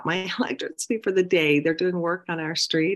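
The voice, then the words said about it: Early morning voice. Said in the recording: “I can tell my voice is a little bit like early morning voice”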